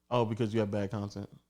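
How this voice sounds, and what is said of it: Whispering. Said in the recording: “Why are you whispering? Say it with your chest.”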